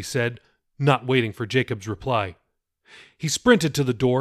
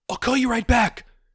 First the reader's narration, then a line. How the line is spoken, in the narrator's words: she screamed into the phone